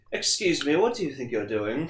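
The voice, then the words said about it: Uptight British accent. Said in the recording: “like, this, like, really, like, uptight British accent”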